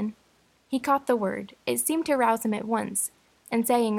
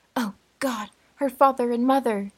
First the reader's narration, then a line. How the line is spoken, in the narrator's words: Captain Wentworth, staggering against the wall for his support, exclaimed in the bitterest agony